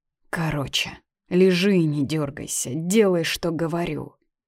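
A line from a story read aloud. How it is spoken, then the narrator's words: Tired hiss through lips. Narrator (Russian): Почти не разжимая губ, прошипела чертовски уставшая за день Катя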